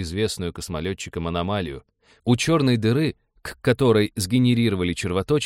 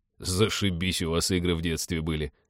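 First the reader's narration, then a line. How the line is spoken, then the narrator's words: Muttered. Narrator (Russian): пробормотал Тед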